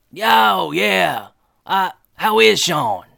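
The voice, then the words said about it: Strained Chet Hunter character voice. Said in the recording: “Do a Chet voice ... I don't want you to hurt your throat”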